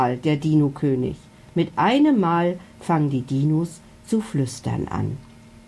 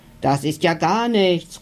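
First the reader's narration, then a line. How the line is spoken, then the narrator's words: Fat dinosaur calling out. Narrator (German): ruft der dicke Dino neben ihm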